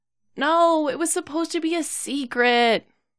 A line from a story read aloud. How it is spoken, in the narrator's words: he groans